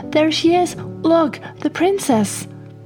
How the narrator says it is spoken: she piped up

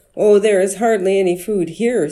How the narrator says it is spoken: said the woman

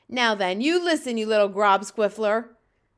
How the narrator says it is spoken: boomed the flesh lump eater

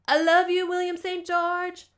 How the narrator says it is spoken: shouted

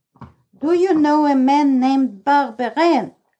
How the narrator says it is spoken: I shouted

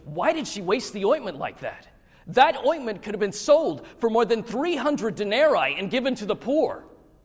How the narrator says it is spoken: saying to themselves indignantly

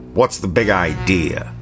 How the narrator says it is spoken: Mike growled

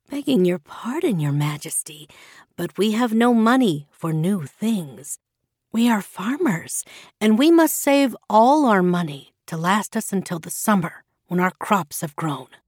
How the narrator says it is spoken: someone replied in a soft voice

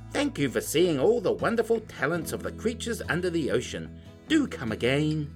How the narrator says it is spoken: Barbara called out

